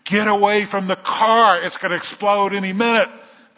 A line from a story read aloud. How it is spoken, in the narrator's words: yelled louder